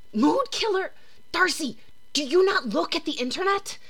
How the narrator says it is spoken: The voice hisses again

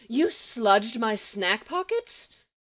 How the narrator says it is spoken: Lex continued crossly

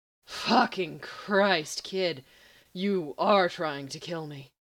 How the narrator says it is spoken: Gabriel breathed

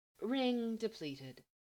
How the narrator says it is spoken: his ring declaring almost sadly

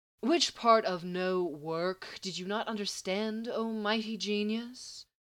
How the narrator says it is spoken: Mercy asked coolly

